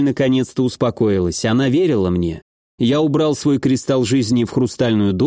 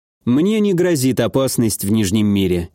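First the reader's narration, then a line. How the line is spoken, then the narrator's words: Confident snort. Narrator (Russian): я уверенно хмыкнул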